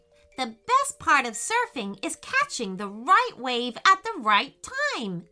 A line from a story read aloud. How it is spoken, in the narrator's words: exclaimed Payton